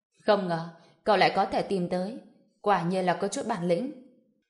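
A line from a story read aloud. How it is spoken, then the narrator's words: Cold, provocative. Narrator (Vietnamese): một cách khiêu khích, lạnh lùng nói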